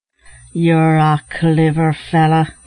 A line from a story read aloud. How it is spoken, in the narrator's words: said Larry, as he came up panting